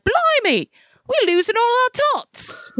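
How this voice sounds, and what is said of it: Put-on Cockney British accent. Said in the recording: “my accent there is more real than some of the British accents... Oh, very Cockney. Very Cockney.”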